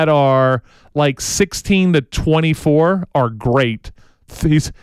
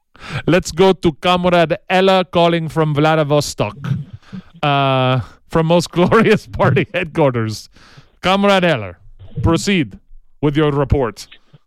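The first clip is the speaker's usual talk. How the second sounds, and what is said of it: Put-on Russian accent. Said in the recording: “Let's get back into Russian accent mode.”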